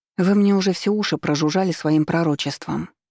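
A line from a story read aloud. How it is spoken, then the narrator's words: Muttering. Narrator (Russian): пробормотала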